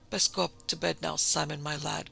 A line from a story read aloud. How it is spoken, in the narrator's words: croaked the old man, wheedlingly